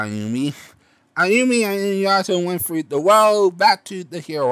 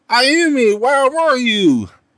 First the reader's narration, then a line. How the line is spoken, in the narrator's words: Eri yelled